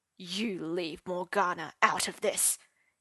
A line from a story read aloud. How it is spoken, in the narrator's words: he hissed